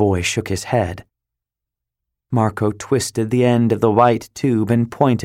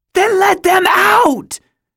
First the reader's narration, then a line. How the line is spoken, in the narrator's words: Sarah shouted